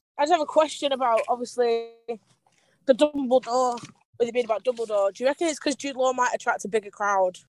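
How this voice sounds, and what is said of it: British accent. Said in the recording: “Sounds like you're down in Australia or New Zealand. ... I'm actually British.”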